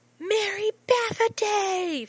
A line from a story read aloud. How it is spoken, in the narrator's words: Finn shouts right in John's ear